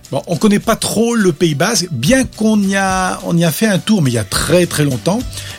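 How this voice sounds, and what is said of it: Slight non-local accent. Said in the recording (French): “on sent un petit accent, vous n'êtes pas d'à côté.”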